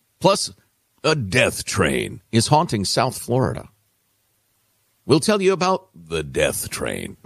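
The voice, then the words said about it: Spooky, scary dramatic voice. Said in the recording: “when you use that voice, it sounds very scary... Scary voice.”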